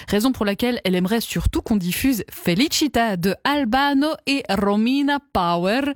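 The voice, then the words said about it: Put-on Italian accent. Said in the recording (French): “Désolée pour cet accent.”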